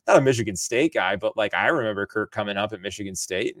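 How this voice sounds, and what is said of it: Michigan accent. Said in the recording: “maybe even my accent, that I'm from Michigan”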